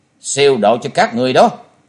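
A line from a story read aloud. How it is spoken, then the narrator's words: Cold voice. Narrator (Vietnamese): Trần Lâm lạnh lùng nói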